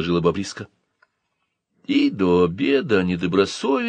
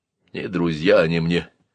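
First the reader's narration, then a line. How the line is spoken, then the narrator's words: Gloomy. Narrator (Russian): мрачно сказал Маза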